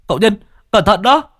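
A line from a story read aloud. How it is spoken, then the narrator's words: Sudden cry. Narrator (Vietnamese): Bạch Hổ bỗng nhiên kêu lên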